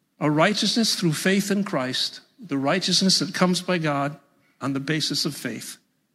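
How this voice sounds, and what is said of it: New York accent. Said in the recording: “Can you guys tell I'm from New York? ... Yeah. ... You're from New York, aren't you?”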